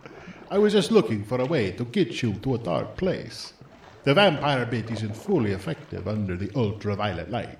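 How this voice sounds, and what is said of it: Dracula-style vampire accent. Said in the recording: “Drac? ... Don't you stay in character, though? ... Yet the accent. ... I think the accent is cool. ... You don't have a default voice? ... I have to talk like this all the time”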